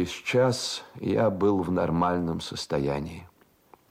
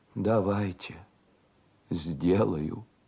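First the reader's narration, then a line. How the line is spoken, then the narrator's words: Quiet, resigned. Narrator (Russian): как обреченная, все равно, мол, и тихо ответила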